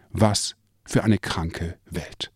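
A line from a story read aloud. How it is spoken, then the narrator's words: Sighing. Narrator (German): seufzte sie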